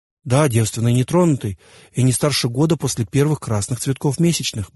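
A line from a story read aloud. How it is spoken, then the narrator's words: Quick addition. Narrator (Russian): быстро добавил я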